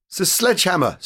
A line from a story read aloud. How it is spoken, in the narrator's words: stammered the figure